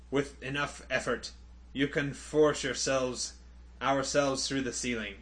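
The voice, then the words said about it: Weak European accent drifting Scottish. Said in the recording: “I don't have a good European accent. ... You wander into Scottish. ... eat enough gravel to get it into my voice to do Londo”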